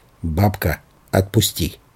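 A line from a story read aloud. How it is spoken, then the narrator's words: Quiet, distinct. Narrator (Russian): тихо, но раздельно сказал ей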